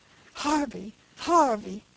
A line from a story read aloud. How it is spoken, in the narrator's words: cried Caesar